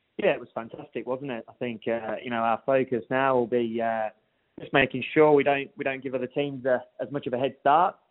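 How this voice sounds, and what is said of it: English accent. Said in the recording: “Nice accent there, no doubt stemming from another part of the world... Yeah, you picked up on that accent. From England originally”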